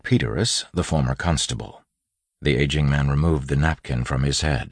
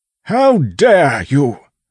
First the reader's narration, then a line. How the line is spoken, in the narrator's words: a familiar voice bellowed